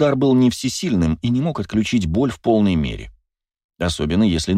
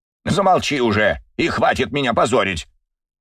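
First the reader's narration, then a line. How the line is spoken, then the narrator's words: Barking in pain. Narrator (Russian): рявкнул Юрий Викторович, скривившись от боли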